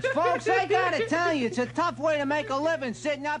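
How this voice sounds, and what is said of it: Cartoon rat voice, New Jersey accent. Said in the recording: “a computer-animated rat with a New Jersey accent”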